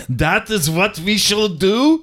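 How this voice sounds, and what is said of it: Put-on foreign accent, fairly good. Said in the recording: “your foreign accents are getting better. That was right? Pretty good.”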